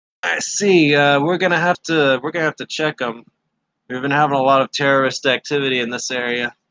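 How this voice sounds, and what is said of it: Accented Imperial officer character voice. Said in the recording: “that accent. He's an Imperial officer.”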